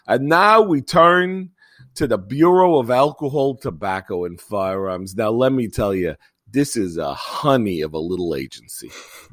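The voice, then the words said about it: Thick New York accent imitation. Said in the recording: “he had this thick New York accent”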